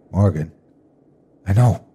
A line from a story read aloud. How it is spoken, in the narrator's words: she snapped, her voice trembling slightly